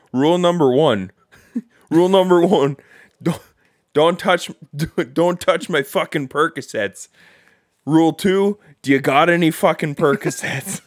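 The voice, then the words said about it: Poor put-on Canadian accent. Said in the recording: “I gotta get into my Canada... the accent was pretty bad”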